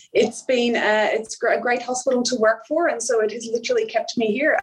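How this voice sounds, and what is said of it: Slight Irish accent. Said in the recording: “half-half accent... there is a few twangs still left of the Irish accent”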